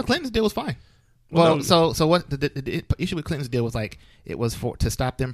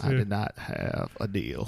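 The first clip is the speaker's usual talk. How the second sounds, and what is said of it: Poor Bill Clinton impression. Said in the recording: “do a Clinton impersonation ... That was terrible.”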